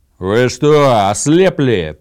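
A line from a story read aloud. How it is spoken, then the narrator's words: Roared. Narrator (Russian): проревел Гудмунд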